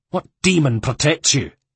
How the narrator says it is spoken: he snapped

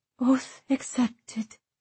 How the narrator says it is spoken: Isolt breathed

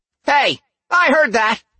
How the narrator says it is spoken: Cora snapped

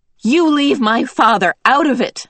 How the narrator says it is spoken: Meg shouted

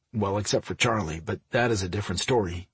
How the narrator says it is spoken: he muttered

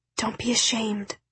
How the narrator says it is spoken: said Zoe, her voice a whisper

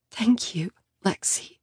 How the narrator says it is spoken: she whispers

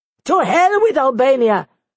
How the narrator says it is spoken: he shouted

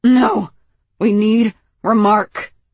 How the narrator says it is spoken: Moss growled

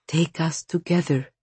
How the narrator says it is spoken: she whispered

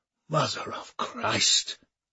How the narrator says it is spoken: wheezed Moulin

